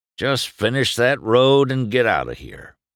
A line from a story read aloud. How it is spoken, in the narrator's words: Doc said